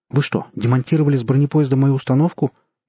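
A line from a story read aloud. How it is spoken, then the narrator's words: Frightened question. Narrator (Russian): испуганно спросил Ломакин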